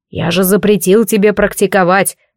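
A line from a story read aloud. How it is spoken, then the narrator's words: Roaring fireplace. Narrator (Russian): Взревел камин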